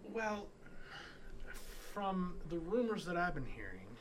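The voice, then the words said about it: Put-on accent that suddenly switches. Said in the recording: “that was a weird accent switch right there ... I'm not good at accents ... He's never had a steady accent.”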